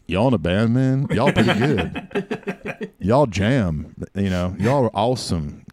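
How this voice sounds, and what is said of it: Put-on Texan accent. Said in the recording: “He would do that kind of accent. He's from Texas, so it was better than that”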